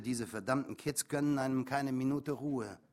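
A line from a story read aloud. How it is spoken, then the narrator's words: Grumbling mutter. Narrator (German): brummelte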